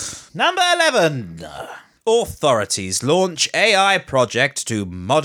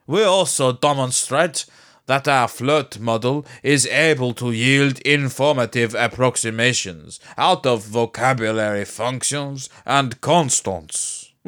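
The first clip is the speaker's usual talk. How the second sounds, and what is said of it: Put-on French accent. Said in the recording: “my little attempt at a accent de français, or French accent”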